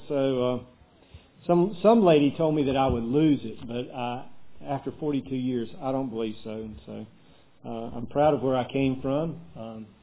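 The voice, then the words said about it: Southern American drawl. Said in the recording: “with your southern drawl, people might need an interpreter ... I picked up a little drawl there”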